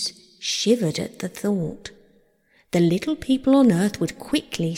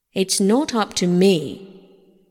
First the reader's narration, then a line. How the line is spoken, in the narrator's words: said gruffly